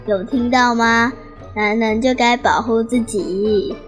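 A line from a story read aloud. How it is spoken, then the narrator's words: Old woman, laughing heartily. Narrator (Chinese): 奶奶开始大笑，跟坐在一旁的爷爷说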